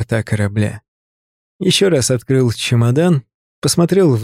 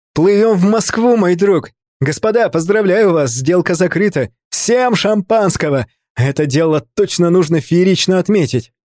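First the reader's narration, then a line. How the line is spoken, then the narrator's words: Excited joyful shout. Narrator (Russian): Артемий, все еще находясь под впечатлением от зрелища, с улыбкой закричал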